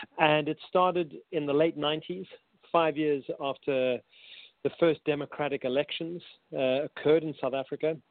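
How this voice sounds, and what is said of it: South African accent. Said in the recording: “I'm a South African, hence my strange accent.”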